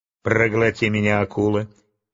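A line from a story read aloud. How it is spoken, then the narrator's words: Laughing. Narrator (Russian): Чарли Блэк рассмеялся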